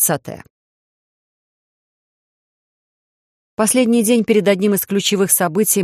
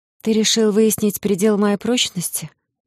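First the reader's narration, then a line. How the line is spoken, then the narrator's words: Tired exhale. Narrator (Russian): устало выдохнула я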